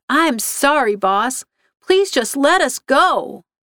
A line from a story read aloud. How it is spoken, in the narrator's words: she called out